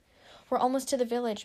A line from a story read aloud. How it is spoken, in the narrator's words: Mango Leaf called, her shoulders shaking with barely contained laughter